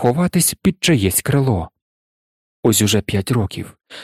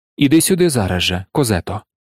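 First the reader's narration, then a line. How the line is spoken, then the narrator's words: Almost tender. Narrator (Ukrainian): сказала майже ніжно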